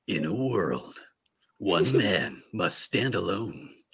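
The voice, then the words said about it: Dramatic movie trailer narrator voice. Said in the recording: “in my movie voice... I can't quite do it as well as Ryan Reynolds.”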